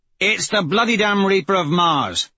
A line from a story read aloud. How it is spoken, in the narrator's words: Severo barks